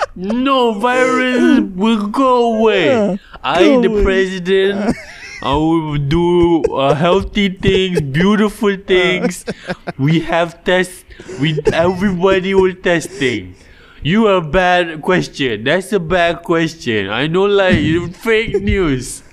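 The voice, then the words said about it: Impression of a politician's voice. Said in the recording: “That's the best impression I've heard of Donald Trump ever. ... It's spot on.”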